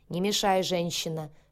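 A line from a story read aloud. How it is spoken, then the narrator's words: Barked harshly. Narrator (Russian): рявкнул на меня Сэм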